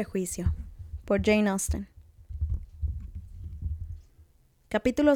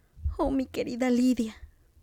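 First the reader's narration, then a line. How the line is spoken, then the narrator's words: Sobbing. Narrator (Spanish): sollozó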